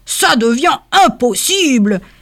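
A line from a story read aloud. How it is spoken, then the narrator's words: Exclamation. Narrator (French): s'exclama le Père Noël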